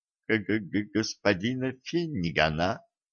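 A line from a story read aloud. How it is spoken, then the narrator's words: Uncertain guess. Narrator (Russian): неуверенно предположил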